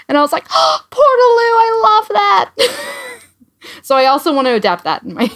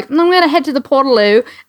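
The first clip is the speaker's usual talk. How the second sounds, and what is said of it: Imitated Australian accent. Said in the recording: “in their Australian accent”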